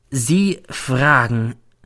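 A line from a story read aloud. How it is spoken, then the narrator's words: Slow speech. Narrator (German): sagt dann langsam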